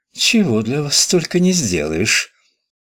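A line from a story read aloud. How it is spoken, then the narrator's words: Indifferent voice. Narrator (Russian): сказала равнодушным голосом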